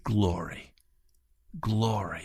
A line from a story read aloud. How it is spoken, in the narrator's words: very softly